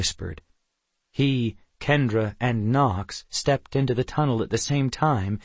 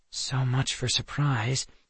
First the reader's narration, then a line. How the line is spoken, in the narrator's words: Kendra murmured